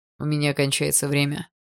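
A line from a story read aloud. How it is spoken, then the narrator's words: Old man's voice. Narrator (Russian): раздался голос старика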